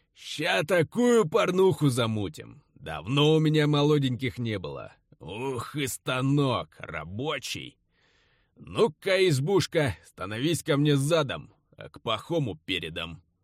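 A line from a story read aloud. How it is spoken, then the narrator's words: Loud snorting neighing laugh. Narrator (Russian): Он пожеребячи, всхрапывая, громко заржал, укрывая ненависть и брезгливость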